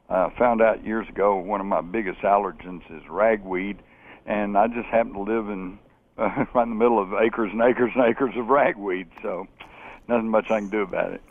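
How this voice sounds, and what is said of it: Slightly scratchy voice. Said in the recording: “my voice is a little scratchy. It's hay fever time.”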